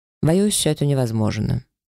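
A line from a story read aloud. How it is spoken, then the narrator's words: Dry, curt. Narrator (Russian): сухо припечатал господин Феррио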